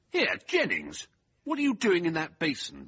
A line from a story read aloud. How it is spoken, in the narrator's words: Venables thundered indignantly